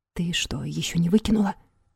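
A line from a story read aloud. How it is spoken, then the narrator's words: Whisper. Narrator (Russian): прошептал Игорь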